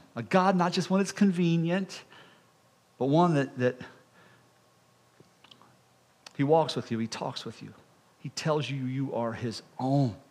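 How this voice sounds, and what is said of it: Emotional, moved speaking voice. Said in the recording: “I'm getting a little emotional.”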